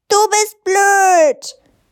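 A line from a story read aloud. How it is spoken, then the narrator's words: Bellowed. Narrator (German): Frieda brüllte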